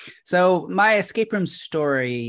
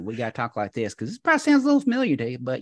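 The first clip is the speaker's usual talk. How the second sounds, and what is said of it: Put-on Oklahoma accent. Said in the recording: “I grew up in Oklahoma. So if I gotta, you know, I can slip right in that accent.”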